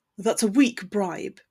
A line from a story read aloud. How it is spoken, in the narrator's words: scoffed